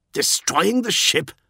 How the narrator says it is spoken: snapped Tyro

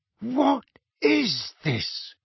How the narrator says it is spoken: Uncle Vernon said hoarsely

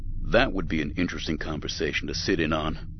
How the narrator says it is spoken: Windu said dryly

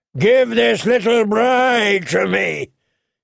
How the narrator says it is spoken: he bellowed

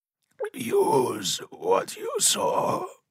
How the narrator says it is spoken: rasped, blood running between his teeth

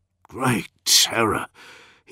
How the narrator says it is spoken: murmured

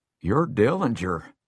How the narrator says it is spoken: he gasps

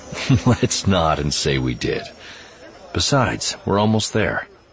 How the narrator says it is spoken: Revan laughed out loud before adding

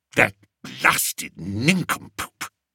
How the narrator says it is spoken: muttered Spittleworth

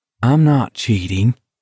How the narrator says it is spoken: Baker said calmly

